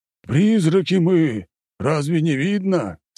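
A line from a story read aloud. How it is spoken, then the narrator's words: Plain. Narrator (Russian): спросил полицейский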